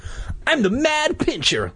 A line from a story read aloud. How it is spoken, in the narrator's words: Luke cried